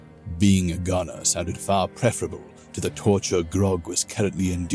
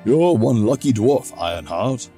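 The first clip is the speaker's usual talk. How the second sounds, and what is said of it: Deep voice of a character. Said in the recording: “the deep voice said”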